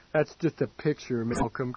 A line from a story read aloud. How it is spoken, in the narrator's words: Case said wearily